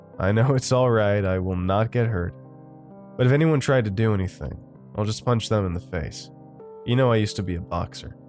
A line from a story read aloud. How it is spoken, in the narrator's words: He laughed and said